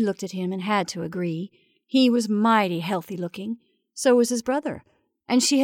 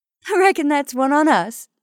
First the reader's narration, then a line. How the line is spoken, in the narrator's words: laughed